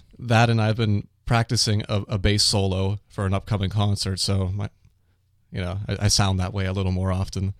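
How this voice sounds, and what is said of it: Deeper, congested voice from cold. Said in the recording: “Getting over a cold. You can probably tell by my voice it's a little more bassy than usual.”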